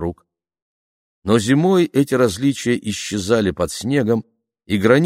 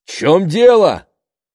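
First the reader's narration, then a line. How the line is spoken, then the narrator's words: Panicked shout. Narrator (Russian): крикнул он в панике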